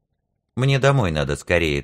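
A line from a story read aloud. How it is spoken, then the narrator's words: Hurried. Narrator (Russian): торопливо сказал Журка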